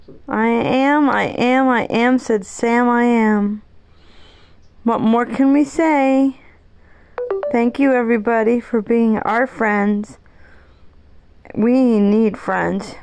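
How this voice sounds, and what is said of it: Teary, sad voice. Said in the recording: “I'm a little bit teary and I'm a little bit sad”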